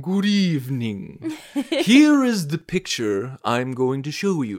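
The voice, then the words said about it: Bad Alfred Hitchcock impression. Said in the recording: “That was the worst Hitchcock accent ever.”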